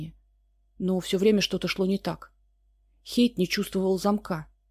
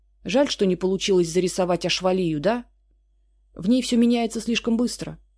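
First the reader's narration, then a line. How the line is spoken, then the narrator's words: Amused snort. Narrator (Russian): хмыкнул Хейд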